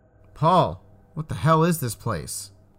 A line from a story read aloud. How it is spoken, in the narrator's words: yelled